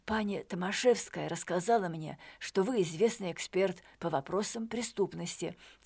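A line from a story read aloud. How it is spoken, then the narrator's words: Quiet. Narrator (Russian): тихо сказал Шакальский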